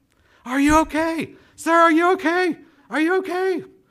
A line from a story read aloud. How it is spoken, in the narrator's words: she was screaming the whole way